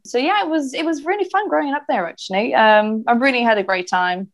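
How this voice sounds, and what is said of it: Hard-to-place English accent. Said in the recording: “my accent is, as you can tell, a bit different. You know, many people think I might be Irish or Australian or South African.”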